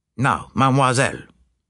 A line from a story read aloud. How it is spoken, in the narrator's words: said Poirot in a brisk tone